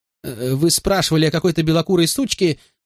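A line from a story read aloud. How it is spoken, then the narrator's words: Whining. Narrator (Russian): скулил зазывало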